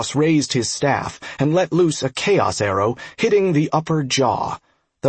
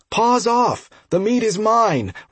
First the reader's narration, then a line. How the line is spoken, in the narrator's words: Ross yelled, undeterred by the prospect of being eaten